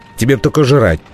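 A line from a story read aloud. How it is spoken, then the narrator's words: Irritated. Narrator (Russian): раздраженно заметил Лузга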